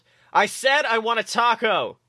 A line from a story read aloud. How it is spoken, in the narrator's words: Dipper yelled back